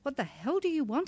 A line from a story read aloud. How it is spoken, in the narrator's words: I cried, angry at his calm demeanour